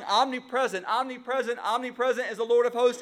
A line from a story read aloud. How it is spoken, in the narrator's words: They weren't even shouting